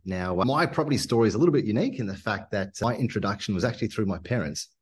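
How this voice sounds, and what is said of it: Unusual mixed accent. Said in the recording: “I've got a bit of a strange accent ... I actually grew up in Zimbabwe in Africa and moved over to Australia”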